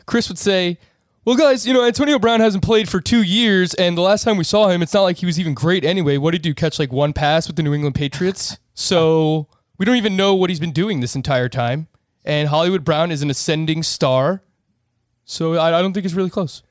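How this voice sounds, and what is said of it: Imitates another person's voice. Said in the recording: “does a pretty good Chris impression... I think that's really good. You just got to slow it down, because he's methodical with how he talks.”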